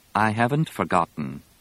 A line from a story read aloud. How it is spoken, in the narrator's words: Leia said evenly